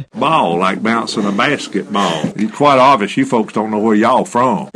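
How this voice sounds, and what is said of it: Southern US (Alabama) accent. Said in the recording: “one Alabamian ... The southern lilt makes for pretty easy listening”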